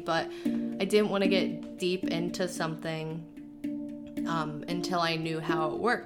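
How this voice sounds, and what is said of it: Sick, iffy-sounding voice. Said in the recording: “I'm also sick right now, so my voice is very iffy”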